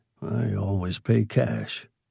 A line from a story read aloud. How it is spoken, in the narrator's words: Morris muttered